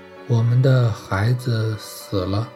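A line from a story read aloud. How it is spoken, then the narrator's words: Sighing. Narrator (Chinese): 变成了一声叹息，说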